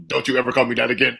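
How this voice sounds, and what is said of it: Imitates another person's voice. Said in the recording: “that was actually a pretty good impression by you, too. You had the ... little down, too.”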